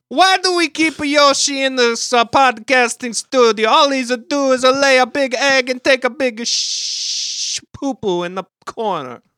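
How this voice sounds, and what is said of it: Strange Eastern European-sounding put-on accent. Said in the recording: “we have strange, indeterminate European Eastern accents”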